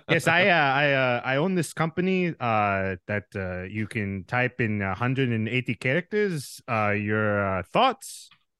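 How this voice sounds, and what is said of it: Put-on South African accent. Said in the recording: “distinct accent from a certain country on the continent of Africa ... South African ... kind of like a mixture of like Dutch and English”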